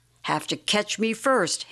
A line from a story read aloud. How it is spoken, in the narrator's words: Ham cried